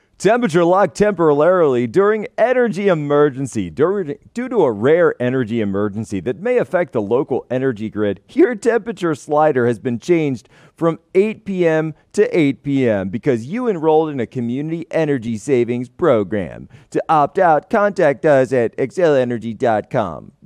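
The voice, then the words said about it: Mock announcer voice. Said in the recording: “I've got to do it in the announcer voice.”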